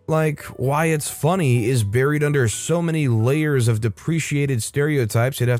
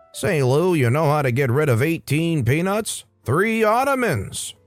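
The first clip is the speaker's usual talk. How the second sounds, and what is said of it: Old-time baseball announcer voice. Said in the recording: “some guy with a fedora and that baseball announcer voice”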